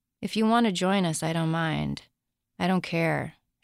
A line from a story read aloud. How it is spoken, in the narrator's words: she said flatly